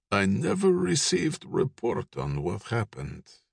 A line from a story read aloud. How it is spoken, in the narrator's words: Ivan breathed out